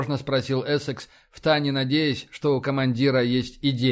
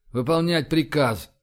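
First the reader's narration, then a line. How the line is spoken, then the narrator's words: Sighing. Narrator (Russian): вздохнул Рашин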